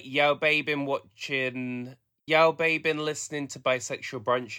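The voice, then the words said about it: Put-on Black Country accent. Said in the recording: “It's not Birmingham, it's black country. So it would be like”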